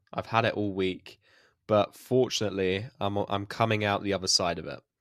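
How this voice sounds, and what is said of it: Stuffy, congested voice from a cold. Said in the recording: “I've got a cold. ... obviously it's all stuffy, but also my throat's a little bit eerie”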